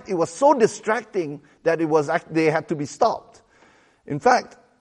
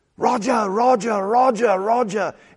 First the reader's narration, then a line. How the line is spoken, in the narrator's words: they started shouting in such a partisan way